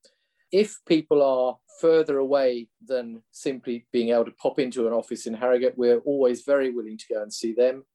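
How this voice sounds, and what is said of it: English Lincolnshire accent. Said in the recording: “my accent, I'm not a Yorkshireman, so I come from the southernmost reaches of Lincolnshire”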